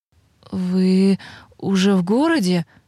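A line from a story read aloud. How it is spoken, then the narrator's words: Hesitant, stumbling. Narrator (Russian): Олег как будто запинается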